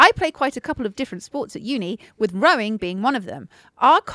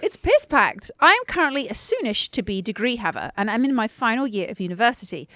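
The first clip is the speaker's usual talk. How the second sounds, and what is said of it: Posh newsreader-style presenting voice. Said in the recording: “I don't know why I'm talking so posh. I think I'm doing my presenting voice. ... Your newsreader voice.”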